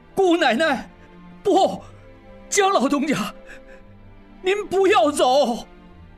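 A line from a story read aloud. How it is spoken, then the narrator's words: Tearful loud cry. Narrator (Chinese): 应季含泪大叫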